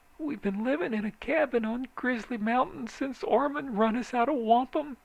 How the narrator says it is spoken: she whimpered

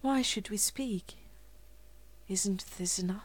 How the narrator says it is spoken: Their secret selves whispered

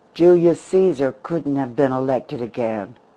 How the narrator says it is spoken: he laughed harshly

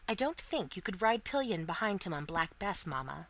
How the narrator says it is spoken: said Molly

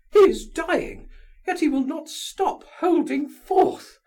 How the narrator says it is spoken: cried Lizaveta Prokofievna

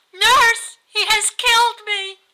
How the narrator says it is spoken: cried

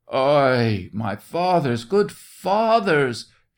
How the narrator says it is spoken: shrieked the soldier, beseeching them not to touch him

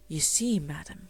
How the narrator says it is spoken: he would explain in his low, respectful tones

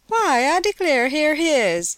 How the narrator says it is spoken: she cried

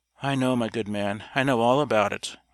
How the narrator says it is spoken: our exhausted hero answered, in a weak, miserable voice

